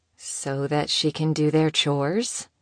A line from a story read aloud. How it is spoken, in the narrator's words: one of the stylists muttered